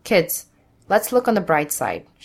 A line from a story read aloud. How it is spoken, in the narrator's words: she says